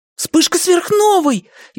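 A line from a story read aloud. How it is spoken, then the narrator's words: Frightened boy exclaiming. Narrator (Russian): испуганно воскликнул один мальчик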